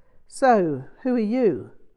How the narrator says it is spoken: in a vaguely sneering manner, John Martin answered for me

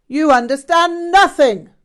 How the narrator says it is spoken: Rinpoche shouted

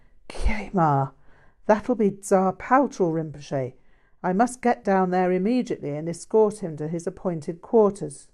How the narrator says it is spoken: The abbot, knowing something of Tsar Paltrow's style, gasped

